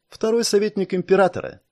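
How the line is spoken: Snide smirk. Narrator (Russian): ехидно усмехнулась собеседница

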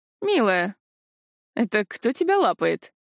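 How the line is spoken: Lazy inquiry. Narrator (Russian): лениво поинтересовался Решел

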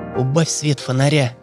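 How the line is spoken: Whisper. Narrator (Russian): шепнула Танька Сереге

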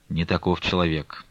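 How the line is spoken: Plain. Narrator (Russian): ответил Алексей

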